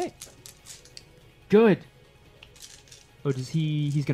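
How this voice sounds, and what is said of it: Usual voice. Nothing is said of it.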